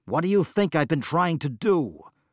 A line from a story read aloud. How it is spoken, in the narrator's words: blurted Mabon